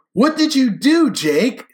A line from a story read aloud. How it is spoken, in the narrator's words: She cried when her brother broke the news